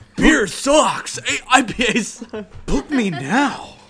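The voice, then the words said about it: Imitates Napoleon Dynamite character voice. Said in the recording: “can I do a Napoleon Dynamite ... impression?”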